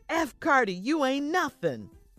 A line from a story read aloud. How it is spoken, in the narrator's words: Lolita yelled